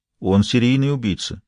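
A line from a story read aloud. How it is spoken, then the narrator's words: Serious. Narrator (Russian): серьезным тоном ответил Пелетье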